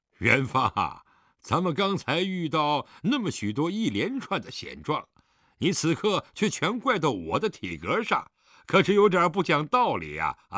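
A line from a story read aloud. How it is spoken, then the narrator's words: Hearty laughter. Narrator (Chinese): 狄仁杰这下笑得更开怀了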